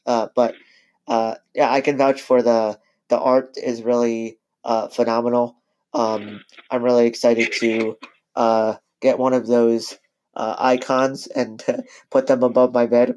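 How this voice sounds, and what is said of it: Hoarse voice. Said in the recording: “I'm a little bit hoarse”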